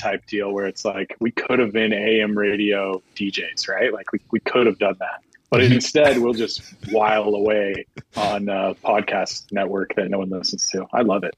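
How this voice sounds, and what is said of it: Wacky radio DJ voice. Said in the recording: “that wacky voice ... the DJ voice ... DJ voice”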